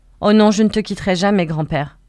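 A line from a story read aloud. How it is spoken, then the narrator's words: Cry while stumbling. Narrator (French): cria Tina, en trébuchant sur une pierre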